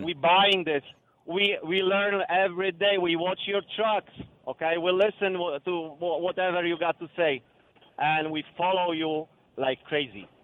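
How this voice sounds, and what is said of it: Foreign accent in English. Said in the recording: “You hear my accent, right? ... I do.”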